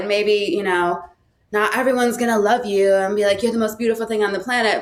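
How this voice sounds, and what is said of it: Californian accent. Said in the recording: “you sound like a Cali girl”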